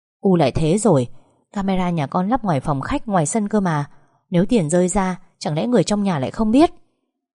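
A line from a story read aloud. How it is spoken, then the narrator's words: Plain. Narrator (Vietnamese): Lộc nói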